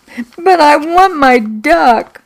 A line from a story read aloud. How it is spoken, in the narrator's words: I sobbed